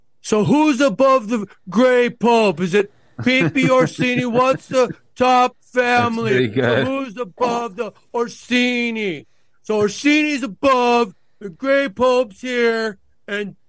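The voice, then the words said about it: Imitates another person's voice. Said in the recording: “do my Sam Tripoli impression”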